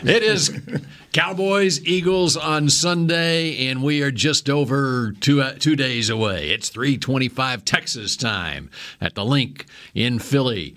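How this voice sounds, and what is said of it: Loud, very dramatic announcer voice. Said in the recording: “Are you louder ... or something? ... He's very, very dramatic. The voice is a dramatic voice. ... It's like the world is coming to an end.”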